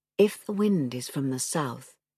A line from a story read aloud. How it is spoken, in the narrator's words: Tanar said, whispering because the sea did